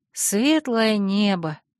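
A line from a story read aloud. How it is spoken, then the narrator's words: Breathed exclamation. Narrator (Russian): выдохнула я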